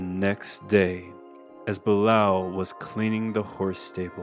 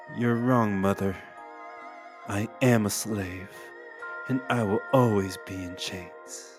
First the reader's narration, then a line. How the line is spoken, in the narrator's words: Waking up with tears in his eyes, Blau whispers